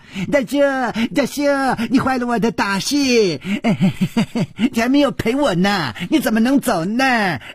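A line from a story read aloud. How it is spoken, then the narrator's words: Gleeful shouting. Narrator (Chinese): 薛宝宝笑嘻嘻地嚷着说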